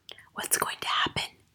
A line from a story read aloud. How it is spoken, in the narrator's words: Lavender whispered